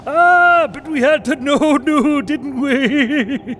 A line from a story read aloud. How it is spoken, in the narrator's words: laughed Donaldine, unabashed